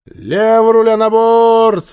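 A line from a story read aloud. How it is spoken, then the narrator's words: Loud command. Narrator (Russian): громко скомандовала Женя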